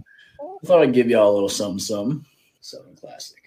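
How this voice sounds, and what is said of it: Country Southern US accent. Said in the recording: “he's got a country accent.”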